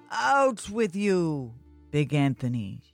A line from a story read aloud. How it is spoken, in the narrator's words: shouted the baker